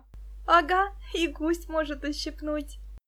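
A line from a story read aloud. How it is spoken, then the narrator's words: Laughing. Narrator (Russian): засмеялась Муся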